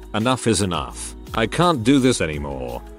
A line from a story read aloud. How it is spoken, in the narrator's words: calmly said